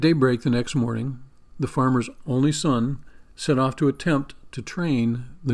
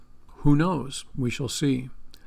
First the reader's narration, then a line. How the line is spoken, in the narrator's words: the old farmer softly said